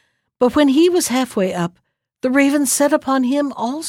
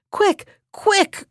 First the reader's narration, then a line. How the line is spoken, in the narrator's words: cried Ian to the men who held the rope